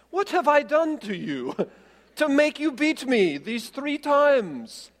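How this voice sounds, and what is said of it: Attempted British accent, self-described poor. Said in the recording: “I picture British... A British accent, perhaps... I'm going British with this one... I'm not very good at British”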